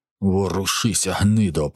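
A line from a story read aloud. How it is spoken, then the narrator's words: Hissing. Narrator (Ukrainian): прошипів Брутус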